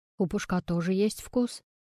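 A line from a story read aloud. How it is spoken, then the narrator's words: Mumble. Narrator (Russian): пробормотал Игорь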